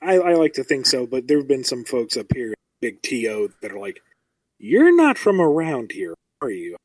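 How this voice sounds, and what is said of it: Usual voice. Nothing is said of it.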